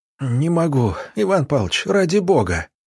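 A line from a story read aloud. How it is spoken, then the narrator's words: Moaning plea. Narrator (Russian): простонал Роман Романович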